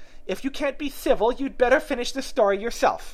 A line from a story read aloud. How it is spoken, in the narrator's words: the Dormouse sulkily remarked